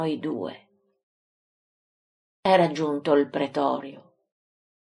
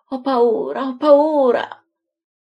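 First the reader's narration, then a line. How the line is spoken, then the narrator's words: Moaning. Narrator (Italian): si accascia al suolo, gemendo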